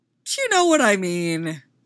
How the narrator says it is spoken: Con protests

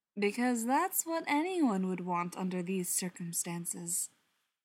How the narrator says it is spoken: John said dryly

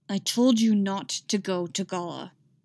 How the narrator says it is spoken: he said through clenched teeth

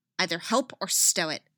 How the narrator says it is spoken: she snaps

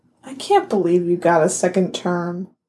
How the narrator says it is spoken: Alana mutters

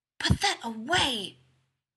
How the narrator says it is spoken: he hisses at Jim

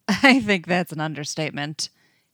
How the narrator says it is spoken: laughs

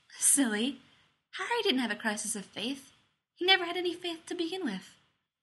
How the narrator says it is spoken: She giggles and says

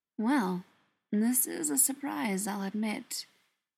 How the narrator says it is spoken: an amused voice drawled

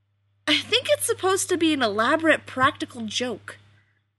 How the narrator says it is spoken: Rodney exclaimed, with a surprising lack of disgust and annoyance

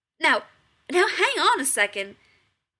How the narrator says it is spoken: McCoy snaps

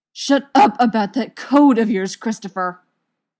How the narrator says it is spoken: Gerard shouts

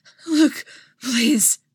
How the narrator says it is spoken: she gasped

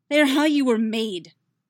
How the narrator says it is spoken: Yennefer snaps back

